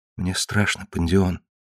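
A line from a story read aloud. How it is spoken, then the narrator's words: Whisper. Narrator (Russian): шепнула Тесса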